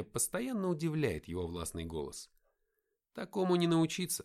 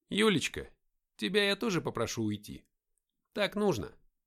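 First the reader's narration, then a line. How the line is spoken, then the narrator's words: Calm, very persuasive. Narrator (Russian): Говорил Игнат спокойно, но очень убедительно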